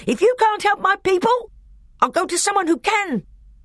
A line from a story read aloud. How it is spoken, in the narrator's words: said Nicobrick, whose voice now rose to a scream